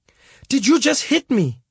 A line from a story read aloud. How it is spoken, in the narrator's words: She got right back in his face and started shouting at him